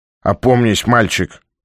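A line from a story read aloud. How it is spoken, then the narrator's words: Irritated old man. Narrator (Russian): раздраженно сказал старик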